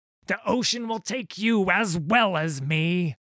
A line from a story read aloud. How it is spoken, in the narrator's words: he screamed